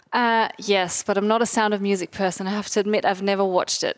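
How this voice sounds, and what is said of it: Slight Austrian German accent. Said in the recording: “there's a little accent in there. Can you explain the accent, ... I was born and raised in Austria.”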